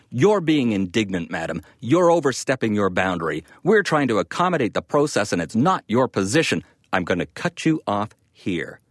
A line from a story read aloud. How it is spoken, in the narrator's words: he barked at her